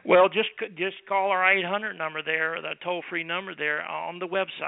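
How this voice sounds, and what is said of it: Texas accent. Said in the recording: “somebody here with a Texas accent, one of us will answer the phone”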